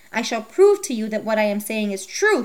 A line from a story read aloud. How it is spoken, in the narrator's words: he cried